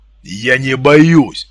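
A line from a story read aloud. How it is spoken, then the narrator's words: Angry bark. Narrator (Russian): зло рявкнул Артем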